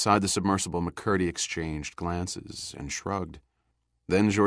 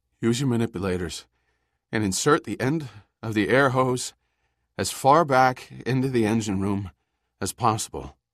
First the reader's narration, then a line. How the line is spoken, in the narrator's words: He gasped out the words